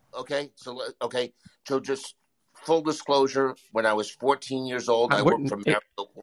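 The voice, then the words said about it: New York accent. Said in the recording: “this New York accent you've been playing is actually legit ... It's real. accent's real. It's very real.”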